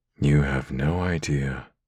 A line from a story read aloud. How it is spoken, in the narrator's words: I rasped